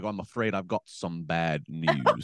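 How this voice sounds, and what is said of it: Put-on British accent. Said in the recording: “with a British accent”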